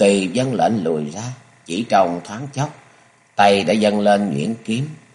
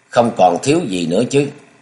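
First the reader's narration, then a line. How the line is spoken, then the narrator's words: Cold voice. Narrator (Vietnamese): giọng lạnh lùng lại cất lên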